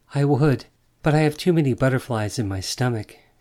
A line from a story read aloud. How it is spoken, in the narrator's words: she answered, and laughed nervously